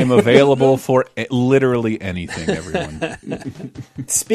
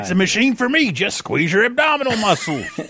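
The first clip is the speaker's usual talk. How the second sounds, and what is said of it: Imitates another person's voice. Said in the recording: “that's a very obscure impersonation.”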